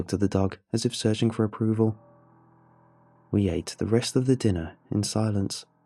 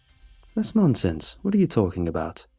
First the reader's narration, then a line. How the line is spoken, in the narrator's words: said my dad